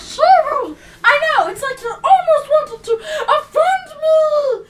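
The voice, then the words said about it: Screaming, very loud voice. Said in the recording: “I'm screaming.”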